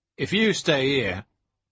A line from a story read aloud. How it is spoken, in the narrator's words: Turpin replied coldly